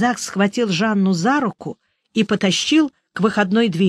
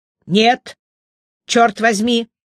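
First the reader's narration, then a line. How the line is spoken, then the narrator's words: Shouting again. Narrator (Russian): снова закричал Бальзак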